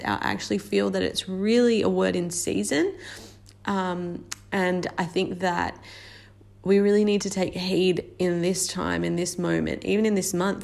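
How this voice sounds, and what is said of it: Unwell, strained-sounding voice. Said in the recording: “You'll have to excuse my voice. I've been unwell all week”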